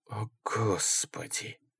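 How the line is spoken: Breathed out. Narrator (Russian): выдохнул Ингелман

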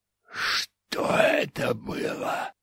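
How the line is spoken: Hoarse wheeze. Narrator (Russian): прохрипел он

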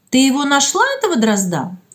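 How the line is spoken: Plain. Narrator (Russian): спросила Клава Гущина

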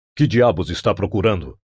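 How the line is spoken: Plain. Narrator (Portuguese): perguntou Conan

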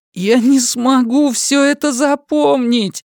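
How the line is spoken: Groaning. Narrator (Russian): застонал Том

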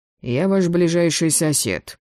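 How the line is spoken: Calm. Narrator (Russian): спокойно ответил незнакомец

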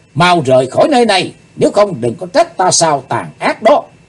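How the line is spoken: Shouting loudly. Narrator (Vietnamese): Chí Tôn hét lớn

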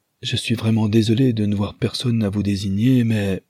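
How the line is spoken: Breathless, weak voice. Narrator (French): Joseph, d'une voix haletante et faible

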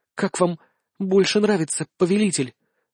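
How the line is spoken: Sultry breathy exhale. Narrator (Russian): Жарко выдохнула она

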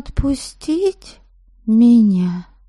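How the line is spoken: Timid suggestion. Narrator (Russian): Робко предложила я

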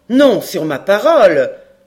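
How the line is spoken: Sharp exclamation. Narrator (French): s'écria vivement le major

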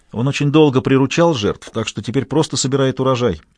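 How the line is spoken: Plain. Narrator (Russian): ответила Кэрол

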